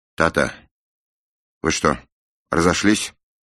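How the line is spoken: Quavering question. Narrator (Russian): спросила она дрогнувшим голосом

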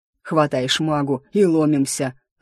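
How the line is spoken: Creaky-voiced growl. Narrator (Russian): рыкнул обладатель скрипучего голоса

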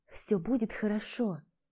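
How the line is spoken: Mother whispering. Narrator (Russian): шептала мамочка

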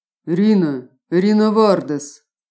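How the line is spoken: Bored official announcing, tired sigh. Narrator (Russian): Скучающим голосом объявил чиновник инспекции магического дара в приоткрытую дверь и устало вздохнул

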